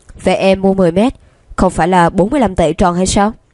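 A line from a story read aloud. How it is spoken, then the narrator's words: Laughing. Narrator (Vietnamese): Lương Đông bật cười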